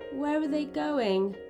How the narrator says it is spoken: asked Mia sadly

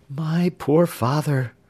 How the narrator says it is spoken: replied Jenny, sighing

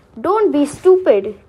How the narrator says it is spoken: cried the second blind man

